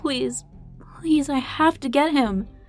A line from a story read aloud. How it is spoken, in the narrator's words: the woman cried, her voice cracking